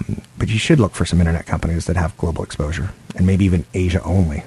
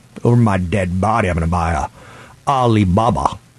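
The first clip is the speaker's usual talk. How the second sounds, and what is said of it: Imitates an Iowa farmer's voice. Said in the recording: “my farmer in Iowa impression”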